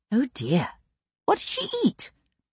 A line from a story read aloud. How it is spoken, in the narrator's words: He laughed softly